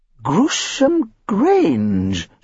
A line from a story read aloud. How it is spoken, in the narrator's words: she said in a puzzled voice